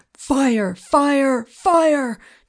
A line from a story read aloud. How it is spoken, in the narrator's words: Joe the cook was yelling from somewhere down below